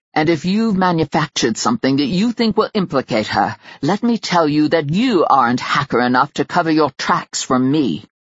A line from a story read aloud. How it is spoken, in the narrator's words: There was no amusement in his voice when he growled